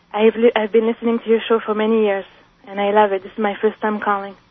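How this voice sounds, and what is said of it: Nervous, slightly shaky voice. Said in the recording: “You sound a little nervous”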